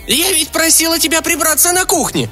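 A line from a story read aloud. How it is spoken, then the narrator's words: Shouted. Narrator (Russian): закричала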